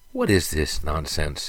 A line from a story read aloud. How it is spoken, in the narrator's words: sighed Lark